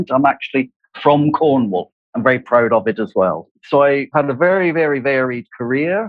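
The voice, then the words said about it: English West Country accent. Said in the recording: “English people will recognize that I have a West Country accent.”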